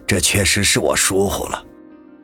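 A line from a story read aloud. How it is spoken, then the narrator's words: Sighing. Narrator (Chinese): 安嘉林这时又是长叹一口气，说道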